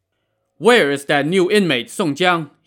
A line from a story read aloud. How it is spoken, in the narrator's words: He shouted